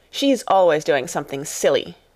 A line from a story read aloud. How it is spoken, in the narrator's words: snapped Lavinia